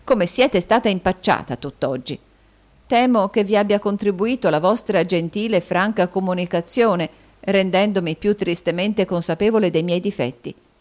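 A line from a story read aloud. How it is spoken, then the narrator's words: Sighing. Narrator (Italian): sospirò Caterina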